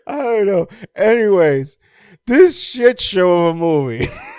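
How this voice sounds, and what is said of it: Usual voice. Nothing is said of it.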